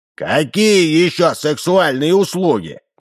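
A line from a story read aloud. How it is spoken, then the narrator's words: Shouting. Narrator (Russian): кричал он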